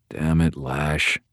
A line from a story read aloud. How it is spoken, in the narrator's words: mumbled